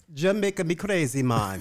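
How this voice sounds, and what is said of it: Bad put-on Jamaican accent. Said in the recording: “do the accent again ... It's so bad. I apologize for every Jamaican listener.”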